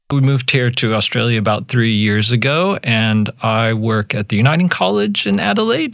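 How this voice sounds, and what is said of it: American Yankee drawl. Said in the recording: “As your listeners might pick up pretty quick, I am American. You can pick up my Yankee drawl”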